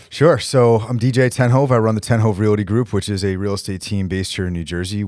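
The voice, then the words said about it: Radio-style voice. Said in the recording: “You have a fantastic radio voice.”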